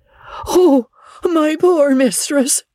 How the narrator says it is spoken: went off into hysterics, and filled the house with her screams

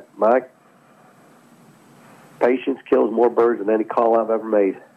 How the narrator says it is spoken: He told me one time in his wonderful Mississippi accent

